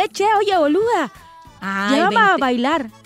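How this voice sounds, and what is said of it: Failed Argentine accent, sounds Chiapan. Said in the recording (Spanish): “tiene acento argentino... estás hablando como la plebe de Chiapas... no reseteé mi cerebro para hablar argentinamente... Estás hablando como chiapaneca”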